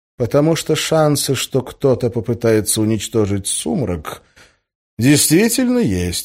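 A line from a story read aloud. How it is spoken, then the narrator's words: Calm. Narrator (Russian): спокойно сказал Гессер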